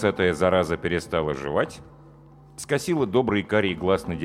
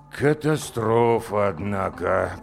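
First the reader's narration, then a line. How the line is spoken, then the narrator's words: Drawn-out drawl. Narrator (Russian): протянул директор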